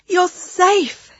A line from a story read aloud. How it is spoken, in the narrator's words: cried